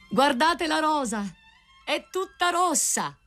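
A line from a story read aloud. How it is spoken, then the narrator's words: Cry. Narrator (Italian): il grido del rosaio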